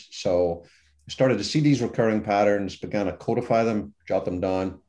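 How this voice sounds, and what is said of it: Irish accent. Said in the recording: “a dumb Irishman, which is by my accent, you can tell what I am”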